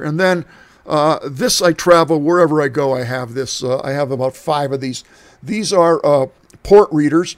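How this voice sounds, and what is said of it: Strained, fading hoarse voice. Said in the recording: “I'm losing my voice here.”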